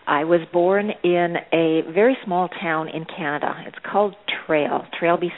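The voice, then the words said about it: Canadian accent. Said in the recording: “the Canadian accent”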